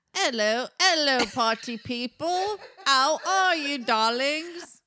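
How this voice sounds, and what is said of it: Weird put-on Cockney accent. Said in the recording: “a weird Cockney accent”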